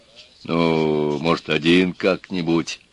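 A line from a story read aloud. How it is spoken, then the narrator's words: Timid request. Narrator (Russian): робко попросил он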